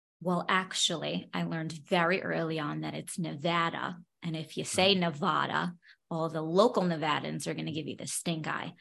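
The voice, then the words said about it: New York accent. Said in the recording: “I can tell from your accent that you are a New Yorker ... I did grow up in Brooklyn. My accent is much stronger when I'm there.”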